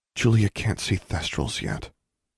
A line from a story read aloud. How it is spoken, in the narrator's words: Alexandra said softly